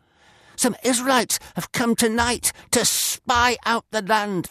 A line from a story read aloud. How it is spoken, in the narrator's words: the messenger exclaimed